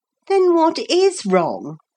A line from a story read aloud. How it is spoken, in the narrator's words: Philip asked impatiently